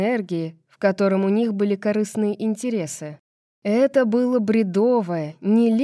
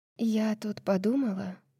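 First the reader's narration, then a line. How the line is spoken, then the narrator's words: Quiet and serious. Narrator (Russian): сказала она достаточно тихо, чтобы он понял, что бы это ни было, это серьезно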